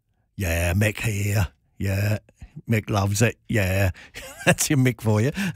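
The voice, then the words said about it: Put-on working-class English accent. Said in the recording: “Mick Jagger has your working class accent.”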